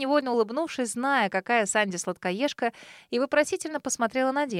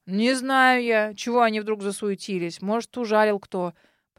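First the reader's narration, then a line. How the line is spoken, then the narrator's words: Old man grumbling. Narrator (Russian): проворчал старик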